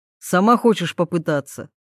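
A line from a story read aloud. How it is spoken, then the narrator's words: Snorting. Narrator (Russian): Тарас хмыкнул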